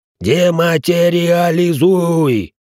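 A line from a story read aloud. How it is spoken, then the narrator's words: Bodyguard roaring. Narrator (Russian): взревел телохранитель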